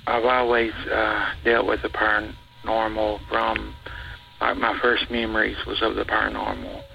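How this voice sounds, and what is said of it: Unusual, hard-to-understand accent. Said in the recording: “I'm sorry if you don't understand me. I've got a weird accent.”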